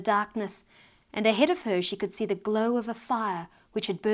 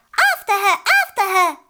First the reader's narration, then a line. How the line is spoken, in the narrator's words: they shrieked